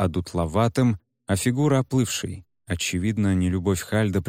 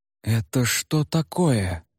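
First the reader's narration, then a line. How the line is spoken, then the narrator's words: Shocked gasp. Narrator (Russian): потрясенно выдохнула госпожа Уна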